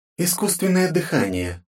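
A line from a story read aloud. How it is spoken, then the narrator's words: Timid prompting. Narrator (Russian): робко подсказала Кэрол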